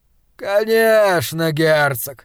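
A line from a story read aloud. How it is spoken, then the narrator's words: Lazy contented drawl. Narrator (Russian): протянул Гутвульф, как согревшаяся на солнце кошка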